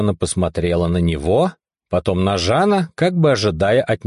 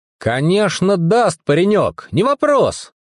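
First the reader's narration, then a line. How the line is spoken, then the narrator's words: Cheerful reply. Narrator (Russian): весело ответил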